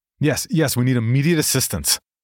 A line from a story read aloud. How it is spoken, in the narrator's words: I shouted into the receiver, dashing from one room to the next in a frenzy